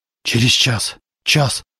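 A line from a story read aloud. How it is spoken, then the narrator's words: Muttered. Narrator (Russian): бормотал Зарубин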